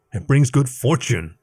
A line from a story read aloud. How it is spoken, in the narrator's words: Leaf growled